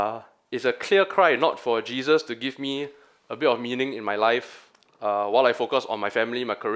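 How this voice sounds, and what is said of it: Usual voice. Nothing is said of it.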